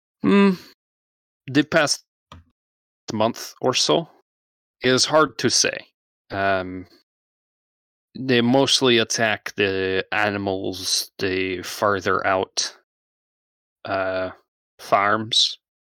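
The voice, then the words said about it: Odd put-on character accent. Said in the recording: “The fuck accent is this? ... It's the accent you've chosen. ... It's not the accent I was going for.”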